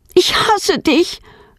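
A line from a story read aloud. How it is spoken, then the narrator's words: Screamed. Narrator (German): schreit sie ihren Vater an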